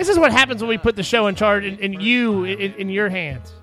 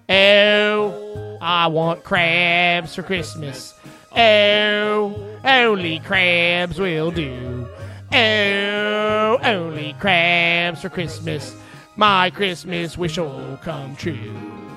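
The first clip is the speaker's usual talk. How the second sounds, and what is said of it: Put-on Baltimore accent. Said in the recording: “There's your Baltimore accent.”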